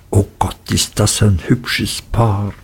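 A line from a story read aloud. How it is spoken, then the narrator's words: Whispered. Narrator (German): zuflüsterten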